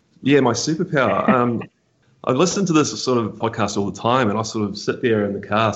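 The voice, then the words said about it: Noticeable accent, unusual pronunciation. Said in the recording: “I should apologize for the accent now, just for the listeners in case they struggle. I'm going to pronounce things weird.”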